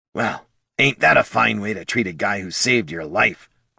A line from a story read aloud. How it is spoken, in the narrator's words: grumbled Bert